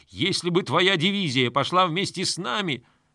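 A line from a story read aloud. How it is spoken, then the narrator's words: Breathless hateful yell. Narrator (Russian): Князь Баргот заорал, задыхаясь от ненависти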